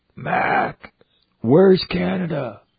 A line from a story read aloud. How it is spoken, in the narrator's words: He'd yell